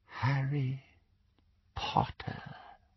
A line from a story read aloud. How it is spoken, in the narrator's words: he said, very softly